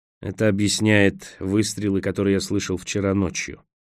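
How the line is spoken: Gloomy remark. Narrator (Russian): мрачно заметил Николас

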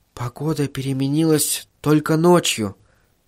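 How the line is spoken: Whisper. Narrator (Russian): прошептала жена

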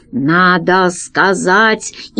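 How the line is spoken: Grumbling. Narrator (Russian): Пашка проворчал

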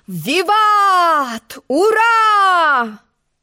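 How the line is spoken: Loud discordant crowd yelling. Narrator (Russian): Громкий нестройный хор завопил

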